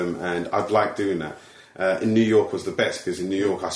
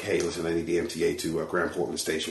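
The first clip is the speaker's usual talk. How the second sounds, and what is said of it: Put-on American accent. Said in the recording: “I spent the entire time as American ... let me see if my accent can work ... American accents”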